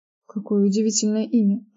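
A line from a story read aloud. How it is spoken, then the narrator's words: Mumble. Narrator (Russian): пробормотала Кейтлин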